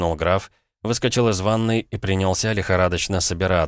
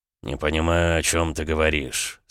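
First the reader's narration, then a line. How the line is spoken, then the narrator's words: Through gritted teeth. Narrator (Russian): сквозь зубы проговорил Александр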